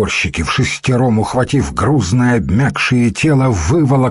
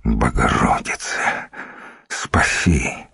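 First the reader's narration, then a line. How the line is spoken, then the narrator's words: Mumbled. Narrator (Russian): пробормотал Никифор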